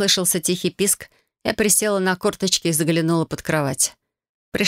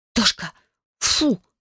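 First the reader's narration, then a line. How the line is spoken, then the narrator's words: Hissing. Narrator (Russian): прошипела я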